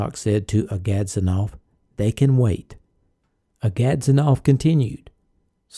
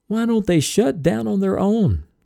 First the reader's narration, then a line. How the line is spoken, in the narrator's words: Someone sobbed hysterically